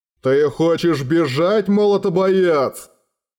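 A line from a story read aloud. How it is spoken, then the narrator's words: Menacing thunderous boom. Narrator (Russian): грозно прогрохотал Наргардсвок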